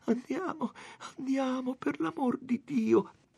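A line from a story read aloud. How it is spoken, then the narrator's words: Faint pleading voice. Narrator (Italian): Lucia chiamava Renzo con voce fioca e diceva pregando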